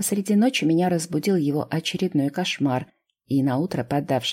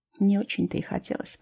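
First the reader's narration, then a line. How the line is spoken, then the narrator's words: Muttering to herself. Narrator (Russian): пробормотала, скорее себе самой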